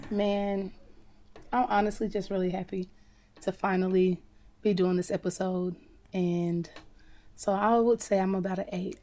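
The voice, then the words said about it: Slightly hoarse, raspy voice. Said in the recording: “your voice is getting a little better. She been hoarse and... giving very raspy.”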